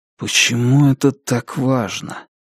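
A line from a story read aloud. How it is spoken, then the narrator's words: Muttered. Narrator (Russian): пробормотал Джейк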